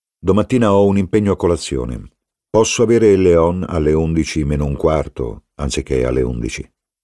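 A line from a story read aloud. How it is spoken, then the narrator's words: Authoritative question. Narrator (Italian): chiese con tono autorevole al principale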